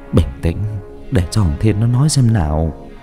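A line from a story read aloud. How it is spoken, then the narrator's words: Gentle, soothing. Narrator (Vietnamese): khẽ an ủi rồi nói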